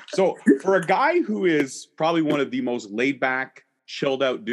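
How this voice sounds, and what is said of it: Usual voice. Nothing is said of it.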